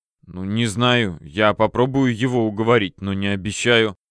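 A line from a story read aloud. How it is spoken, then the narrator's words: Storekeeper muttering. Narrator (Russian): пробормотал кладовщик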